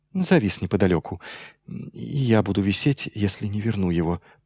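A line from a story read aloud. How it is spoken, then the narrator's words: Whisper. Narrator (Russian): прошептал Майлз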